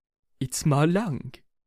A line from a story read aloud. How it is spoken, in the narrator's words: said Boxer in a weak voice